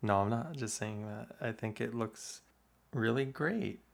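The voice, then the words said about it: Sarcastic, insincere-sounding tone. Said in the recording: “Why did you say that so sarcastically? ... But it sounds like you're lying.”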